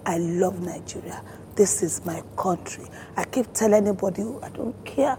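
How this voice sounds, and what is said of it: Nigerian accent. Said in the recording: “I love my dialect. I want, when I speak, I want you to know there's a Nigerian woman talking.”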